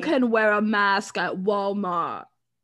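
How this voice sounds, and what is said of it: Put-on British accent impression. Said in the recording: “Is that your British accent? ... No, that's really my Sophie Turner impression. ... It's really good.”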